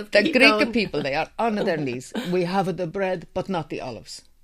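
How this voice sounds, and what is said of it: Put-on Greek accent. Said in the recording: “with apologies to Greek people for my awful Greek accent ... That was very impressive.”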